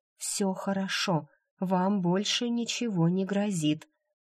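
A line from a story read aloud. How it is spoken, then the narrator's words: Whispered. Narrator (Russian): Джейд шепнув ему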